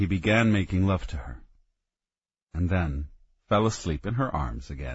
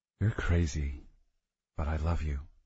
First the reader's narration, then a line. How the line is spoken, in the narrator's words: she whispered